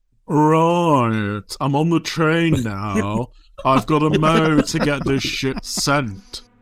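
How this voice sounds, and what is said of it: Imitates another person's voice. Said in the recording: “I have refined my impression”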